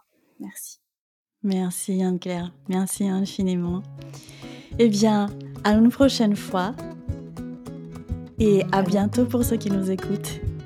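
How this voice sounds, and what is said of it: Melodic, sing-song French accent. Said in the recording (French): “j'adore ton accent qui chante dans mes oreilles”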